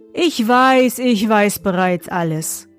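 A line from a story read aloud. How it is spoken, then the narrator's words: Plain. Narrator (German): sagte er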